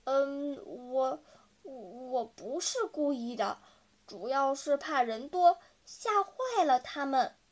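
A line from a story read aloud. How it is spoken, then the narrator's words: Embarrassed stammering. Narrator (Chinese): 大奇羞得满脸通红，他结结巴巴地说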